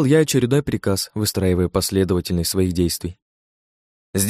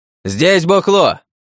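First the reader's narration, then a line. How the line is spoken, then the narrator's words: Man yelling. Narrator (Russian): заорал мужик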